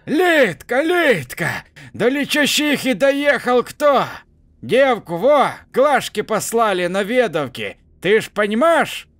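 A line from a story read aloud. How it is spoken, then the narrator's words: Old woman yelling loudly. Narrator (Russian): бабка уже орала на весь автобус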